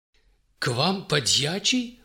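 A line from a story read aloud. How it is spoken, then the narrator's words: Surprised exclamation. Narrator (Russian): удивленно воскликнул морской поручик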